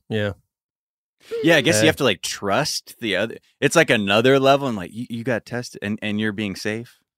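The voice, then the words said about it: Impression of a stereotypical dating guy. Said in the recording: “That's a great impression of the guys that Blair dates.”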